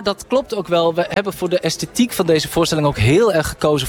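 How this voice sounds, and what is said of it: Usual voice. Nothing is said of it.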